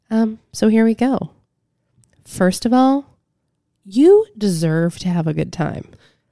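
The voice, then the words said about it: Soft, quiet, soothing voice. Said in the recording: “one in a soft voice ... that soft volume”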